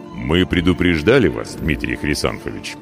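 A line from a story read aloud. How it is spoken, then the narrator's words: Deep quiet rumble. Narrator (Russian): густо и тихо прогудел смуглый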